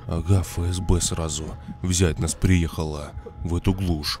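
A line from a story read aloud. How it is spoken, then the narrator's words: Whisper. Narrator (Russian): В ответ прошептал Марк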